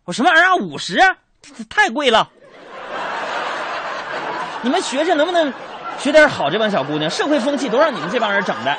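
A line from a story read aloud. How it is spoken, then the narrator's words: Loud shout. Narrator (Chinese): 我就大声喊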